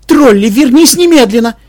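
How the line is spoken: Mother shouting. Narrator (Russian): крикнула мать

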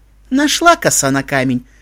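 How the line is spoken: Pleased laughter. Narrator (Russian): рассмеялась довольная Луна

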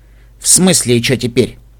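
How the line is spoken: Rude question. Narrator (Russian): спросила грубо

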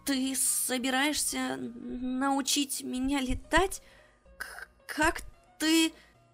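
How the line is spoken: Hesitant, stammering question. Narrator (Russian): спросила она, запинаясь

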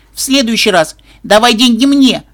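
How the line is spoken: Desperate, almost shouting. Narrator (Russian): в отчаянии чуть не выкрикнула рыжая пони

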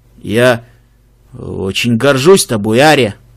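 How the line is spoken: Hesitant, forced out, huge creature. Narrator (Russian): Огромный фестрал замялся, но все же выдавил

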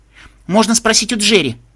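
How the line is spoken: Young unicorn exclaiming. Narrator (Russian): воскликнула единорожка

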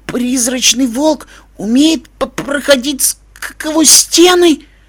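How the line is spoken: Stammering plaintive whimper. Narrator (Russian): Заикаясь, жалобно проскулил пони

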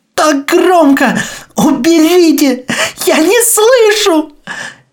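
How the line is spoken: Sobbing. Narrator (Russian): Я рыдаю

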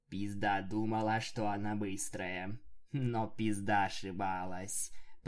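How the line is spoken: Slurred metallic voice. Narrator (Russian): произнесло оно невнятным металлическим голосом

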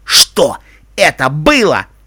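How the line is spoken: Angry shouting. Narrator (Russian): гневно кричал он

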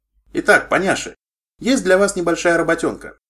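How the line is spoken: Cheerful. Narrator (Russian): весело сказала она

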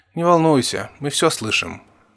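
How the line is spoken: Sleepy. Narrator (Russian): сонно сказала Лира

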